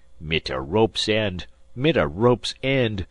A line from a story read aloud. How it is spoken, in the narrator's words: growled the German